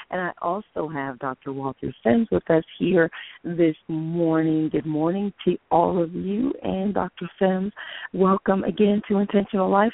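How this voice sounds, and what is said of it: Hoarse, raspy voice. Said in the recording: “This is your very hoarse co-host ... that raspiness is”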